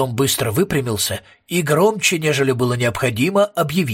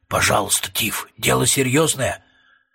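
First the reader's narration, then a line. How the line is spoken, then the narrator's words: Whispering. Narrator (Russian): прошептал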